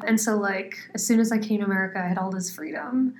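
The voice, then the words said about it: American accent. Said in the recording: “I got an American accent ... it's not a British accent”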